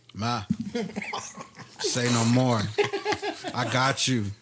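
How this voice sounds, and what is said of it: Put-on cool, swaggering voice. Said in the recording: “in my coolest voice”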